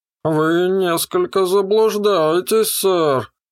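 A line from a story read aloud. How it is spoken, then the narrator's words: Mocking robotic drawl. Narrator (Russian): издевательски протянул робот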